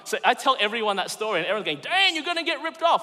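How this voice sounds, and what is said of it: Non-American foreign accent. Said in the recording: “I'm not from America, if you haven't picked it up from the accent”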